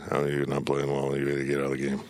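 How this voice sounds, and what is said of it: Impression of Bob Huggins. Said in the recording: “That's a good impression.”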